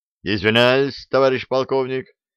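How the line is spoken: Brisk bark. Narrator (Russian): бодро гаркнул я

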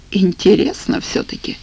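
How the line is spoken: Sigh. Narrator (Russian): вздохнул

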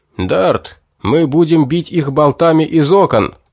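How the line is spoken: Shouted. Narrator (Russian): крикнул Корой

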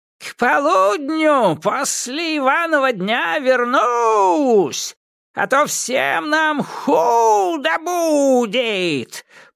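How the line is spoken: Old witch shouting from above. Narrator (Russian): прокричала сверху яга

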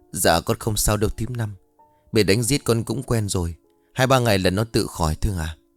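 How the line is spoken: Hurried, pained. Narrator (Vietnamese): vội vàng lên tiếng

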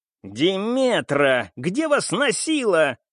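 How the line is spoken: Immediate growl. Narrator (Russian): зарычал он сходу

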